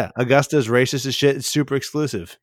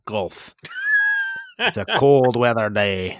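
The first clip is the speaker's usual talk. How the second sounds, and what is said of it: Bad put-on Scottish accent. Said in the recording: “That's a terrible Scottish accent. ... That was terrible.”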